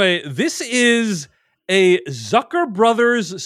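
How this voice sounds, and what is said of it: Usual voice. Nothing is said of it.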